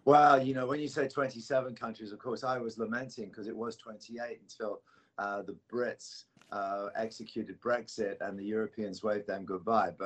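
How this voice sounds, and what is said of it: European accent. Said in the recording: “You still haven't shed that accent ... It's still plaguing you ... European”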